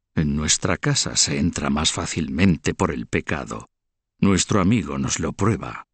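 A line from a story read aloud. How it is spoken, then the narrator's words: Murmuring. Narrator (Spanish): Cuello Torcido murmuró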